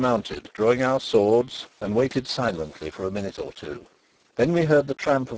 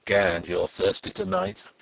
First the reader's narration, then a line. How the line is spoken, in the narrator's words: chuckled Zapt